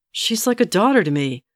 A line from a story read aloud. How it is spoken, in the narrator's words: Geralt snapped at her